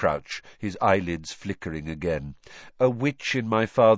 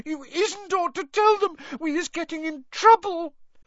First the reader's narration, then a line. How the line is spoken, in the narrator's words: sobbed Winky through her hands